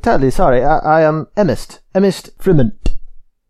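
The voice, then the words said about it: Put-on character accent. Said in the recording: “It's the only way in which I can get into the accent.”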